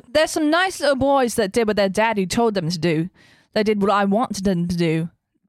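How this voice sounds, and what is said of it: Put-on English accent. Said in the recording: “You got to do it with an English accent there in England there. ... Do it with the English accent.”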